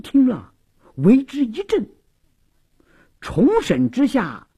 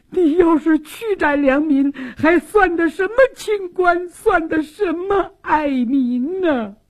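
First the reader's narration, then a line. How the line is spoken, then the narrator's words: Tearful complaint. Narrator (Chinese): 苏旭娟也哭诉说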